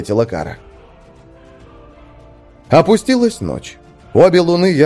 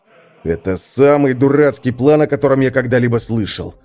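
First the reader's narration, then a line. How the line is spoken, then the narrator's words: Grumbling. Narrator (Russian): ворчал Свен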